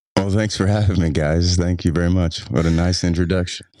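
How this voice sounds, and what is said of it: Deep, smooth radio-style voice. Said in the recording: “he's got NPR his interview already... He's doing his sexy voice today”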